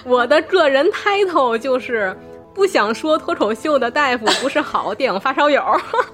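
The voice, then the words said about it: Tianjin-accented Mandarin. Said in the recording (Chinese): “东北人吗？我觉得口音特别有意思。 ... 不是，我是天津人。”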